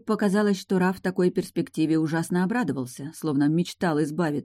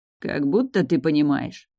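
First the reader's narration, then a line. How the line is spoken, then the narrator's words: Mutter. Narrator (Russian): пробормотал Раф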